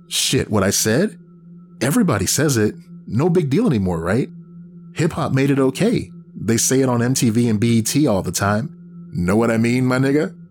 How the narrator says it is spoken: He said the last with a broad urban accent, laughed as if it was funny

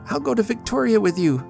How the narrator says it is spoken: cried Sybil

